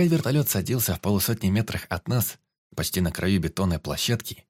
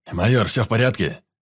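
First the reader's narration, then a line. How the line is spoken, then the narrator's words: Big man's questioning deep bass. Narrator (Russian): Вопросительно воскликнул здоровяк внушительным басом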